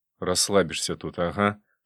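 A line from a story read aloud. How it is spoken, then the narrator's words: Grumbling. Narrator (Russian): проворчал я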